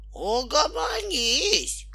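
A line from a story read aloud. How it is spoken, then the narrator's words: Shouted. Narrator (Russian): кричал он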